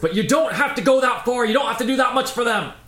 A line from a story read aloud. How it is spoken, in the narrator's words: shouting, it says